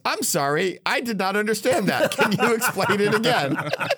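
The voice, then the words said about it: Very loud quoted voice. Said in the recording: “in a very loud voice”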